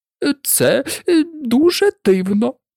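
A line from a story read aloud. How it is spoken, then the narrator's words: Deep sigh, then speaking. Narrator (Ukrainian): фальшива черепаха глибоко зітхнула і промовила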